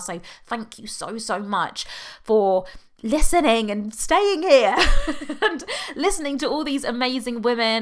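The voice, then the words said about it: British accent. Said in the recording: “I know you can tell from my accent I'm British”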